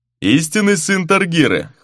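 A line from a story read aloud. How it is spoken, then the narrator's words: Wry snort. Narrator (Russian): хмыкнул сеньор де Вредо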